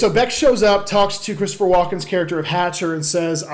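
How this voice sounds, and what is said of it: Usual voice. Nothing is said of it.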